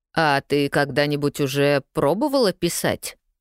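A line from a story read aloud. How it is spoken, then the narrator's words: Strange-toned question. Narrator (Russian): Каким-то странным тоном поинтересовался Джейми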